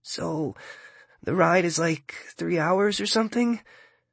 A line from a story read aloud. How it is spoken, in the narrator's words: Timothy asks, his voice shaky